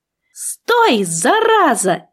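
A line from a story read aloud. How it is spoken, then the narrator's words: Shouting. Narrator (Russian): крикнула я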